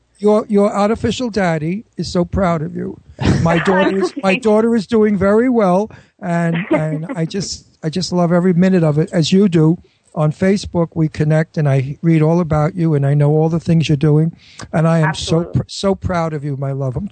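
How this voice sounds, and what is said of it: Teary, crying voice. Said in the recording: “I'm getting teary-eyed. ... I can't even believe he's actually crying. ... I'm all teary-eyed.”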